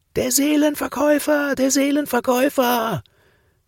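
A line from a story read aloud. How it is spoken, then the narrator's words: Children screaming. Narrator (German): schrien dann die Kinder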